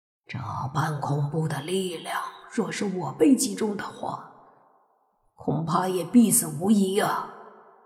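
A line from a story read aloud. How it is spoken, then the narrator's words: Low, shaken. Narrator (Chinese): 大力鬼王都脸色一变，低声说道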